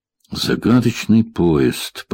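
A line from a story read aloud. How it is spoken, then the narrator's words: Muttering. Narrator (Russian): пробормотал я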